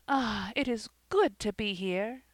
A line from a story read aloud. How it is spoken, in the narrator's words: She drew a deep breath and exclaimed, almost involuntarily